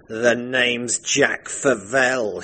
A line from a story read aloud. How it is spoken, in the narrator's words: he sneered